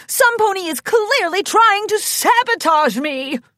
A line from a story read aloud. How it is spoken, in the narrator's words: whined Ritzy Rose